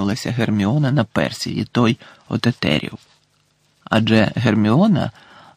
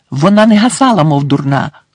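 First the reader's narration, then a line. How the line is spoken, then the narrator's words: Exclaimed. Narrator (Ukrainian): вигукнула Герміона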